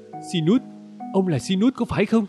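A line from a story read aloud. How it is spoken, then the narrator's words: Emotional exclamation. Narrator (Vietnamese): xúc động kêu lên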